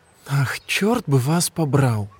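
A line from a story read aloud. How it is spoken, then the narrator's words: Exclamation. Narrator (Russian): воскликнула Винни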